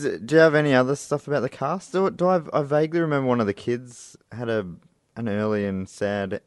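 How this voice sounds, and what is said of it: Usual voice. Nothing is said of it.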